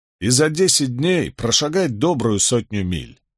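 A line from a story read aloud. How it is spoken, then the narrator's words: Grumbling. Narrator (Russian): проворчал Барак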